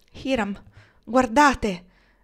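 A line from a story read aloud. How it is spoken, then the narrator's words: Exclamation. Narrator (Italian): esclamò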